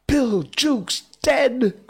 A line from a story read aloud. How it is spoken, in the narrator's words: cried the startled pirates